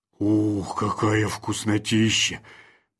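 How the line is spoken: Mumbled under breath. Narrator (Russian): пробурчал себе под нос

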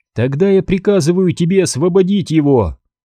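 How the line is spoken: Shouted. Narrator (Russian): крикнула она

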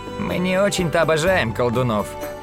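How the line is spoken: Creaky voice. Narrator (Russian): проскрипел Тавик

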